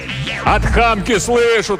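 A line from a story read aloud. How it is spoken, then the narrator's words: Yell. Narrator (Russian): тоже заорал Иван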